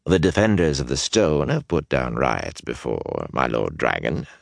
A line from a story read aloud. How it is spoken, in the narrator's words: Suniman said soothingly